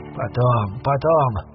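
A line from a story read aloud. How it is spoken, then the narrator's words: Tired. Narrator (Russian): устало произнес Армитедж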